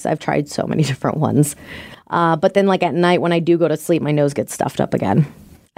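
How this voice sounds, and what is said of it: Raspy, congested voice. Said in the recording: “you definitely don't sound amazing, but you sound better ... this raspy voice”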